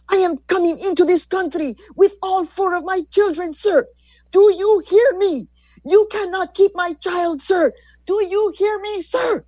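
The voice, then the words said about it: Thick Mexican accent, loud firm yelling. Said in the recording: “With a powerful voice, she yelled up at a man ... said firmly in her thick, unmistakably Mexican accent”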